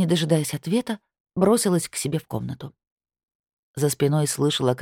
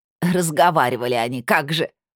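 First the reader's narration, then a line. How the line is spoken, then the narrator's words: Snorting. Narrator (Russian): фыркнула левая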